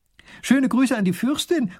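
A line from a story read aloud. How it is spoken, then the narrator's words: Calling after. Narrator (German): ruft die Prinzessin noch hinterher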